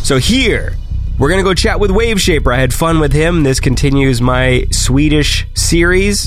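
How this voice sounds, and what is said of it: Congested, sick-sounding voice. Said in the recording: “I have a cold,”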